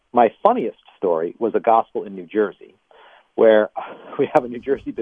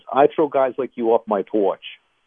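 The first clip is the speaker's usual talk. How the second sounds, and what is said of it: Put-on Northern New Jersey accent. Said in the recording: “in a good Northern New Jersey accent ... Is that a good accent? ... It's pretty good.”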